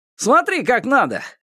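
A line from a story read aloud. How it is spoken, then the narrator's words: Sturdy young man shouting. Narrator (Russian): крикнул крепкий парень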